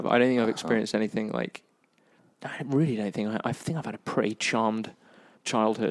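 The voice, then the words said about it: British accent. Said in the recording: “British what? Accent.”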